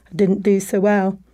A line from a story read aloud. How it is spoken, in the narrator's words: he sadly said